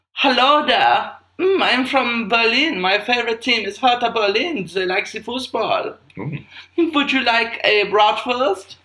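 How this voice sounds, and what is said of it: Camp put-on German accent. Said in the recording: “When I do a German accent, I can only do it as a camp man.”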